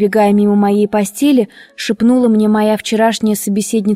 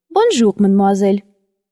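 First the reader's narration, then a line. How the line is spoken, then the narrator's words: Dry, curt. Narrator (Russian): сухо произнесла она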